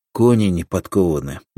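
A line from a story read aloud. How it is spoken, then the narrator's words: Sighing sergeant. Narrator (Russian): вздохнул фельдфебель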